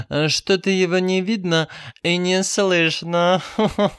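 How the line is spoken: Giggling. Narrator (Russian): хихикнула она

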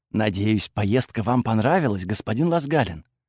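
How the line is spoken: Said quietly. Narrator (Russian): тихо сказал мне

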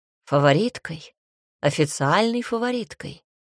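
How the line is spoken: Calm objection. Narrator (Russian): спокойно возразил он

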